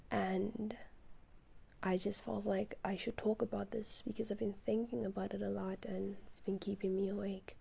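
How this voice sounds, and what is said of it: Slightly raspy voice. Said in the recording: “It's at night. It's literally like 11:14 p.m. It's dark. That's why my voice is a little raspy.”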